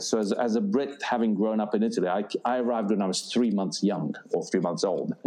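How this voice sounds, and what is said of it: Slight British accent. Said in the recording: “You might detect a vague British accent there.”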